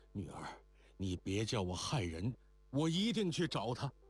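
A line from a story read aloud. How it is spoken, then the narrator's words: Breathless. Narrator (Chinese): 郭色纯喘吁吁的道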